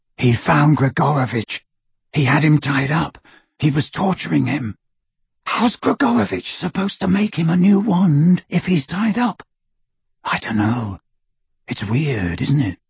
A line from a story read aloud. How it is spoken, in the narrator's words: whispered into the darkness